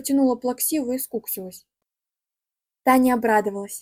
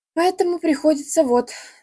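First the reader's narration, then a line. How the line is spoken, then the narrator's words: Sighing. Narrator (Russian): вздохнула она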